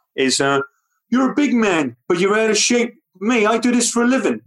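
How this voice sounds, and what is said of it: Imitates another person's voice, different accent. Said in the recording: “doing an impersonation that everyone knows, but in someone else's accent ... butchering Sly Stallone ... that's bad, isn't it? It doesn't quite work.”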